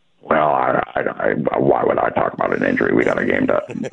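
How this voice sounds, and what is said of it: Bad Bill Belichick impression. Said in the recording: “that's a really bad Belichick impression”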